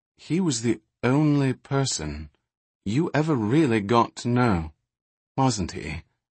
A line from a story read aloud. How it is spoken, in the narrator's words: she asked quietly